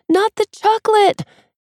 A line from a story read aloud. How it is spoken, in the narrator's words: May yells